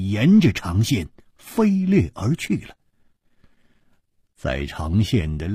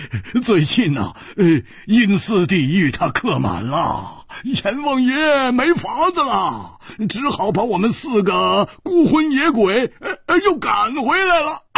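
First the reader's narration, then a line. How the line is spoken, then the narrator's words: Loud laughter. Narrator (Chinese): 胡铁花大笑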